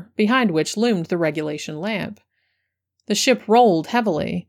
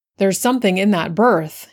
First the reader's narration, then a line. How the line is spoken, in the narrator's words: he cried in a strange voice